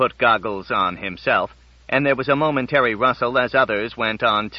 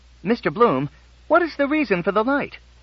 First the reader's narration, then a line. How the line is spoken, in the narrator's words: Someone called out